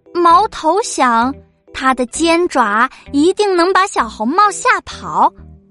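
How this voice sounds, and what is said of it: Usual voice. Nothing is said of it.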